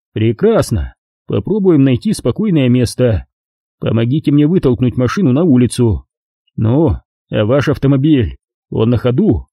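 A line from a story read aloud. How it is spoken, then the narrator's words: Excited laugh. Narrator (Russian): Блондин возбужденно рассмеялся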